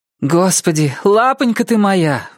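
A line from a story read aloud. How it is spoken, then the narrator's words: Exclamation. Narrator (Russian): воскликнула Рут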